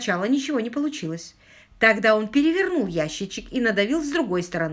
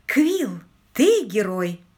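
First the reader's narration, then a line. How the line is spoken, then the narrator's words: Exclaimed. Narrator (Russian): Полли воскликнула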